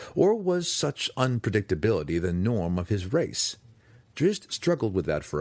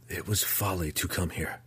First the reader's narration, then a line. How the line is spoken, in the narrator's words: Drizzt whispered under his breath